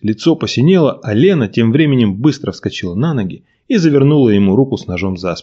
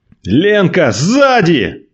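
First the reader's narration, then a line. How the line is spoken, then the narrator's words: Shout. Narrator (Russian): крикнул Николай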